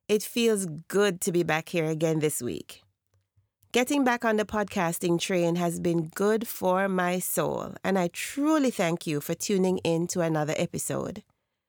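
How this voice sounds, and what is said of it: Scratchy, sick-sounding voice. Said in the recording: “my voice is a bit scratchy in last week's episode, and again this week I'm still fighting a bug ... please forgive the sound of my voice”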